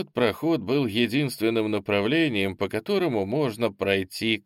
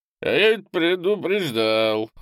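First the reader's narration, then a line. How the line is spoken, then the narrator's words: Drunken tone. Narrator (Russian): хмельным тоном сказал Олесм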